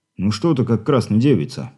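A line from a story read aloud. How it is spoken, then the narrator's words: Displeased grumble. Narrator (Russian): недовольно пробурчал Крупицын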